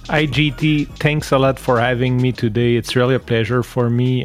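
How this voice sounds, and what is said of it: French-Canadian accent. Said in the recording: “I'm French ... my so nice accent, my French-Canadian accent”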